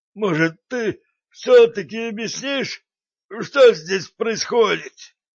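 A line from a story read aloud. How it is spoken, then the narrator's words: Strained wheeze. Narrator (Russian): вымученно прохрипел Братский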